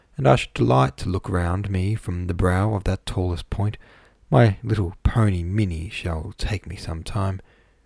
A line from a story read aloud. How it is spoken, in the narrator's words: she murmured to herself